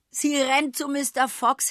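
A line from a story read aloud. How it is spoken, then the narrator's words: Laughing. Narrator (German): lachte Mrs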